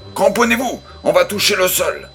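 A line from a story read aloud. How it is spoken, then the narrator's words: Pilot's yell. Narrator (French): hurla le pilote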